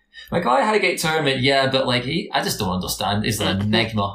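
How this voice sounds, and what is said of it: Scottish accent. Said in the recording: “people think I'm Australian at times at work. So I am Scottish.”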